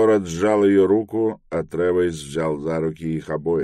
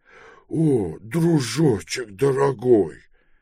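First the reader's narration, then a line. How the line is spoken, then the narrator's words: Tearful babbling. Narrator (Russian): пролепетал Пилород, и у него слезы навернулись на глаза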